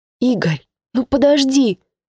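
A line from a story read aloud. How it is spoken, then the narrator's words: Desperate squeak or whisper. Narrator (Russian): Отчаянно то ли запищала, то ли зашептала Эля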